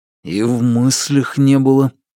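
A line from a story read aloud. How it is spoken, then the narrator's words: Embarrassed, through gritted teeth. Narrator (Russian): процедил Алексей, кляня свои предательски загоревшиеся уши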